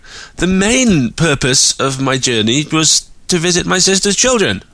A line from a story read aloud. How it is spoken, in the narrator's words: Augusta snapped